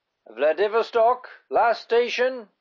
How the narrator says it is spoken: the conductor cried in a toneless voice

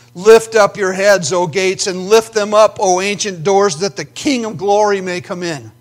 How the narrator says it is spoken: the angels shout

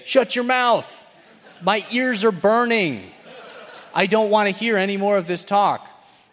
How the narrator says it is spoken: they will yell out just as well and say

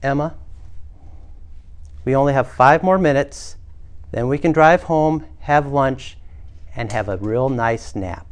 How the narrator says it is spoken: mom take a deep breath and then say calmly for the third time

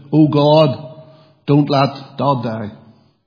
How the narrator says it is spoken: His daughter, Emma, she shouted

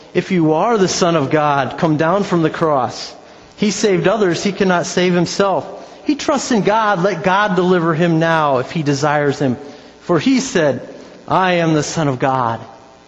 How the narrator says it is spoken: people mocked Him, saying

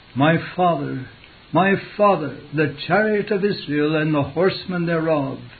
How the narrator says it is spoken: Elisha cried

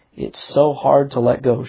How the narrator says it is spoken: she said

